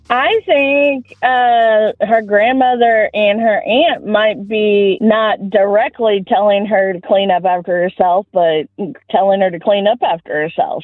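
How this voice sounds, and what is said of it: Southern American accent. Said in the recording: “accent ... Southern”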